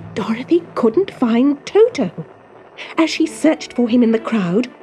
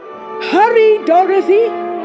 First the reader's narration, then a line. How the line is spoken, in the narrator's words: cried Oz